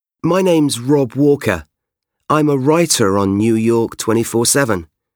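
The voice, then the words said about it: British English accent. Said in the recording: “You can probably tell from my accent that I'm not actually from New York. I'm British”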